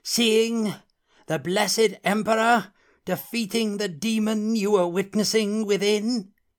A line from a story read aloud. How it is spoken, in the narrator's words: cried a herald